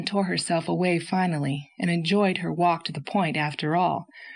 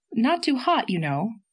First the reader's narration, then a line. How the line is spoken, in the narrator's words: said Anne anxiously